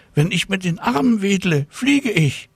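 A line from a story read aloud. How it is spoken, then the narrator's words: Called out. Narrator (German): rief Tina Luise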